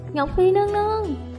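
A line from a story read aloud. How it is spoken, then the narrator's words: Sobbing, pleading. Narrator (Vietnamese): Cung nữ đó khóc cha khóc mẹ, cầu xin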